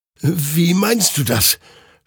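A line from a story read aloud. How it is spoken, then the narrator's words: Confused stammering. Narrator (German): stammelte Hektor verwirrt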